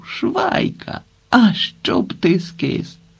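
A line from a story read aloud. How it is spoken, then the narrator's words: Shouting. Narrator (Ukrainian): Зненацька один з них вигукнув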